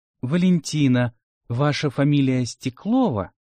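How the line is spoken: Very tender inquiry. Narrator (Russian): самым нежным тоном осведомился Борис

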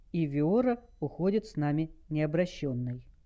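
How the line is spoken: Calm reply. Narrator (Russian): спокойно ответил Дэйв

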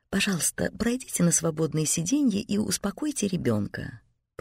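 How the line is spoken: Cooing. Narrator (Russian): проворковала стюардесса

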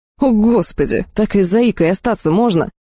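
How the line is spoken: Monstrous wailing croaking wheeze. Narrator (Russian): Нечто среднее между воплем белухи, карканьем и предсмертным хрипом какого-то неведомого монстра

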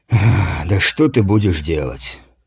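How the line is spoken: Heavy sigh. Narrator (Russian): тяжко вздохнул воин, видя настрой своего лидера

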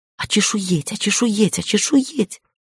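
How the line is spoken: Whisper. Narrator (Russian): зашептала Шири

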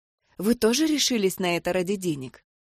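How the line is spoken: Quiet woman's question. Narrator (Russian): тихо спросила меня неухоженная, но ярко одетая женщина

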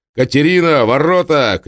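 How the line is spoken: Shout. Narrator (Russian): крикнул Маркел

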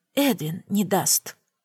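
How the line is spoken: Whisper. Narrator (Russian): прошептала я

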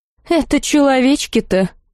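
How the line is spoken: Snorting. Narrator (Russian): фыркнула Лалина

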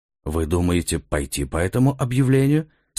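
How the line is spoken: Plain. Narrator (Russian): спросил Скайльс

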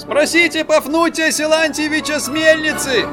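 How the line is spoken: Parting shout. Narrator (Russian): крикнул им промасленный водитель напоследок

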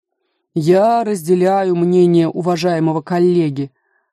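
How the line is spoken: Plain. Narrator (Russian): сказал государственный казначей

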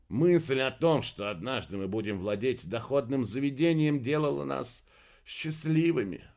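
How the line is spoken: Sigh. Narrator (Russian): вздохнул Фелди

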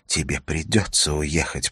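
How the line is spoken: Whisper. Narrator (Russian): прошептала она

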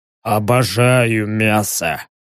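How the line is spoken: Creaky rasp. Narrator (Russian): проскрипел червиус

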